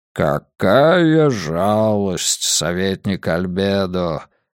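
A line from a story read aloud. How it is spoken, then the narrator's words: Deep booming bass. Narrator (Russian): Густым басом пророкотал кардинал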